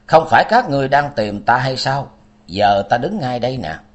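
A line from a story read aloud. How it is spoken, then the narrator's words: Cold. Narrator (Vietnamese): Dân Long Nhất Hiện lạnh lùng nói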